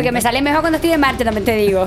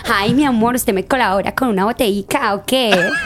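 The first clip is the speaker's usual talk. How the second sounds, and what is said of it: Put-on Colombian Spanish accent. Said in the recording (Spanish): “yo sé imitar hacer el acento colombiano ... fui cogiendo el tonito”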